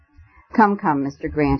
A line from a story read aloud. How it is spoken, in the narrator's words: he panted